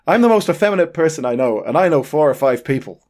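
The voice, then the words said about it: Poor Irish accent impression. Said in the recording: “I think that was an Irish accent ... I don't know why I can't do his accent. I mean, I'm not even in the right part of Ireland. There, it's terrible.”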